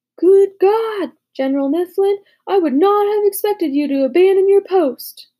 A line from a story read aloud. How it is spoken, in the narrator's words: Washington exclaimed